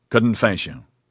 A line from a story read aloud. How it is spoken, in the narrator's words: Marcel said